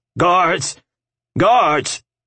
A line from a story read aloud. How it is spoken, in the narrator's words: he shouted